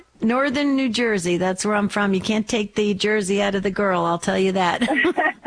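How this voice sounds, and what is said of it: Back east New Jersey accent. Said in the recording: “You probably picked up a little of my back east accent”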